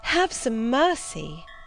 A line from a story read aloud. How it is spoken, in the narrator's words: I cried